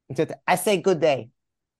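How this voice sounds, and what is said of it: Weak Fez impression. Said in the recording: “I can't really do a good Fez impression right now”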